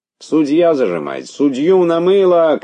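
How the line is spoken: Several people shouting. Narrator (Russian): кричали другие

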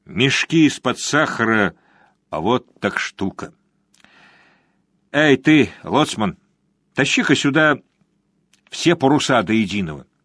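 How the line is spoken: Annoyed, through gritted teeth. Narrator (Russian): с досады процедил сквозь зубы

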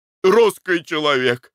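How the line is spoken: Joyful exclamation. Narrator (Russian): радостно воскликнул Николай Иванович

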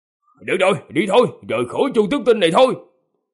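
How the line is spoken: Laughing loud shout. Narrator (Vietnamese): Ông ta cười lên ha hả, quát lớn

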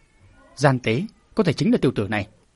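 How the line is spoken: Cold sneering. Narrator (Vietnamese): Huyền Phong đạo trưởng cười khẩy một tiếng, lạnh lùng nói

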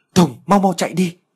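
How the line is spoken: Loud desperate shout. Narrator (Vietnamese): cậu ta hét lớn

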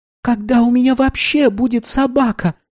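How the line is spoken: Sobbing. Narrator (Russian): всхлипнула она

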